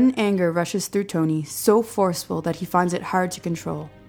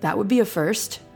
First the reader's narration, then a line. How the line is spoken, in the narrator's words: McGee chuckles